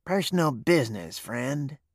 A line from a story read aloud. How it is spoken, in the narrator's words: said quietly